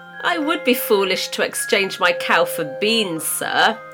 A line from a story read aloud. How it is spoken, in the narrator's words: Jack laughed